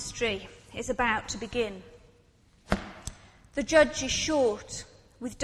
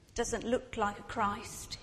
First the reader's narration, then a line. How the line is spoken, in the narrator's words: mutters